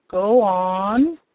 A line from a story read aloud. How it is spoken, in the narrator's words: growled the Grand Galliput